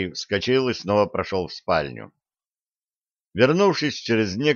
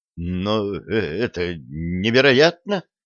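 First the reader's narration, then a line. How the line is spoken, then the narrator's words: Stammering. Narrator (Russian): заикаясь, проговорил Питер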